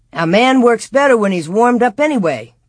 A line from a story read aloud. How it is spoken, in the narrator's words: Pa said cheerfully